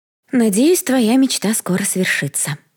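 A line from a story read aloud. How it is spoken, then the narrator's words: Sighing. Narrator (Russian): вздохнула Ари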